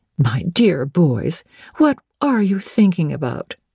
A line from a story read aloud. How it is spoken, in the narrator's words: exclaimed Mrs